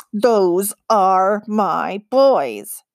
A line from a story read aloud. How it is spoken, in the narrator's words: growled